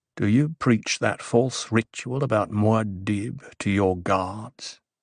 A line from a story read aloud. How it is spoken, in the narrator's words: Haight asked, his voice low